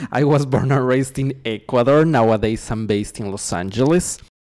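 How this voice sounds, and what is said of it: Speaks with an Ecuadorian accent. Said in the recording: “what's up with the accent.”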